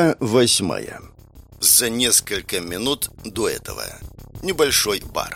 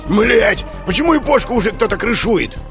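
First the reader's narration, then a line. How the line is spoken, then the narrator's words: Yell. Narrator (Russian): заорал вошедший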